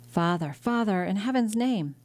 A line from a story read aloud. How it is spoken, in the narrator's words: the young man exclaimed